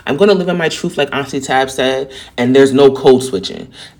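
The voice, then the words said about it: Heavy New York accent. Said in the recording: “New York people have a very distinct and assertive tone ... my accent's so heavy because I sound like I'm from this city”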